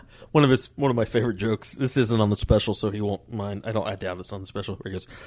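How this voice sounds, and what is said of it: Usual voice. Nothing is said of it.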